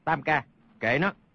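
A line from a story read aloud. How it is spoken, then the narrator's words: Lowered voice. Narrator (Vietnamese): Hoàng Nhan Hồng Liệt hạ giọng nói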